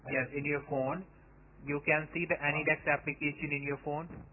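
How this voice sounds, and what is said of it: Speaks English with a foreign accent. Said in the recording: “how do you get a name ... with an accent like yours? ... You don't sound like”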